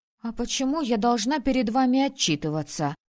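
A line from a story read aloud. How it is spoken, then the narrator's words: Snapping retort. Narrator (Russian): огрызнулась в ответ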